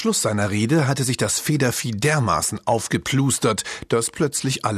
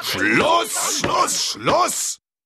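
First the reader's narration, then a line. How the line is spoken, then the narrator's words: Roaring. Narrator (German): brüllte der Graue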